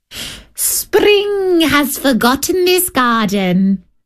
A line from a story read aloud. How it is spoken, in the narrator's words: they cried